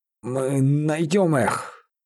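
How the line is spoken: Hoarse, nearly fainting. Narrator (Russian): хрипел Бараус, едва не теряя сознание

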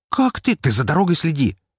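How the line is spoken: Sharp. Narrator (Russian): резко сказал я ей

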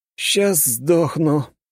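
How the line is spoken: Weak groan. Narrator (Russian): простонал я, не в силах пошевелиться

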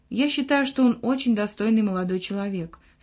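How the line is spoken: Calm. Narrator (Russian): спокойно отозвалась Бьюла

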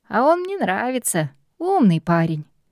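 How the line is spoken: Laughing. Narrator (Russian): хохотнул отец

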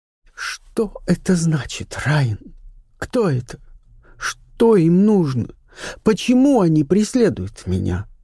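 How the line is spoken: Sobbing. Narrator (Russian): всхлипывая, произнесла она

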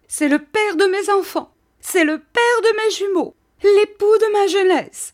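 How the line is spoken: Struggling cry. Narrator (French): s'écria Mistress Micawber en se débattant

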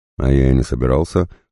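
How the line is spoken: Grunt. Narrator (Russian): хмыкнул Козлов

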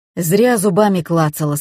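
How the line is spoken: Angry. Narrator (Russian): сказал сердито

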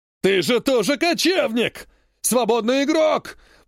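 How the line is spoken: Angry shout. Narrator (Russian): прокричал в гневе Адриан

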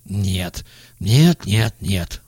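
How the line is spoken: Sudden mutter. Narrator (Russian): вдруг забормотал он

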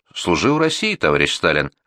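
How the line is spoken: Plain. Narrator (Russian): ответил Толбухин

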